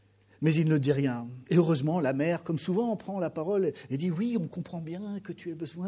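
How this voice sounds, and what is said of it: Usual voice. Nothing is said of it.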